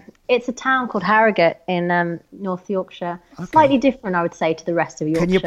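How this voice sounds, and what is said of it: Usual voice. Nothing is said of it.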